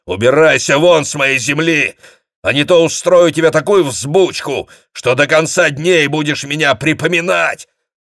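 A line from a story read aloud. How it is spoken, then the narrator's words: Roaring. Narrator (Russian): проревел он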